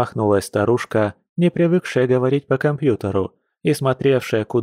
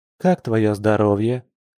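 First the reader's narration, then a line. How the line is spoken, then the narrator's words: Soft she-bear. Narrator (Russian): мягко сменила тему медведица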